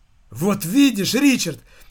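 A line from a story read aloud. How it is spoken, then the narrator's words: Exclaiming. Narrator (Russian): воскликнул Энди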